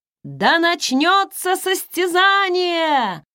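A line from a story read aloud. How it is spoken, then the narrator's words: Shouted. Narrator (Russian): закричал эльф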